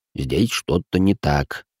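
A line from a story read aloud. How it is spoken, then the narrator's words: Gruff mumble. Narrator (Russian): буркнул в ответ маг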